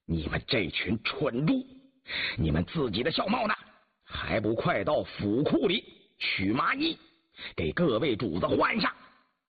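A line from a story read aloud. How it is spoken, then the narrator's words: Stern, harsh. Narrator (Chinese): 张廷玉 厉声说道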